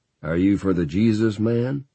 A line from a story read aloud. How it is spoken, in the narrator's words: laughed merrily